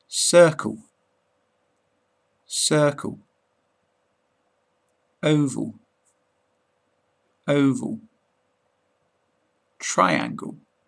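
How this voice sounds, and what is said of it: British English accent. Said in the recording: “in my British accent”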